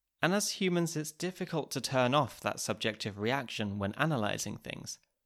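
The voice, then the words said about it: English accent. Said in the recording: “a nice English accent”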